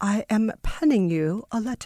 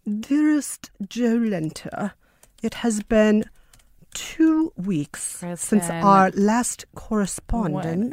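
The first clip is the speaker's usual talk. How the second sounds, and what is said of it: Old-timey formal letter-reading accent. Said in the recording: “write me an old timey letter... Did you like that accent?”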